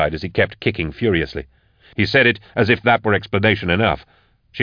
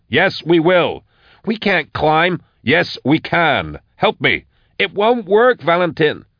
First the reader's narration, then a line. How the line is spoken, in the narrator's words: she shouted